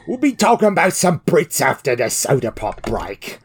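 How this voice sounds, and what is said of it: Poor put-on British accent. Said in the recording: “This is a terrible accent.”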